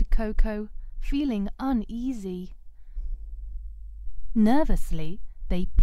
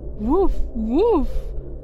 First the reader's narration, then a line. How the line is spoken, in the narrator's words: barked